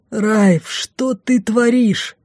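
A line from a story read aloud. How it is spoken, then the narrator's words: Groaning. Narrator (Russian): простонал лорд Лайс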